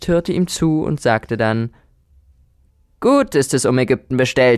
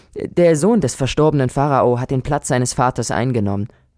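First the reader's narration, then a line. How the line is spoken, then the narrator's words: Plain. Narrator (German): antwortete Sinuhet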